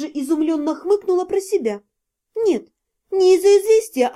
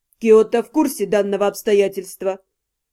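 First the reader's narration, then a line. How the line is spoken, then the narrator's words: Dry. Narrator (Russian): сухо произнес он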